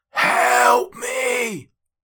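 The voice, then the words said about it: Hoarse shouted character voice. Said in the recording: “quite hoarse at this point”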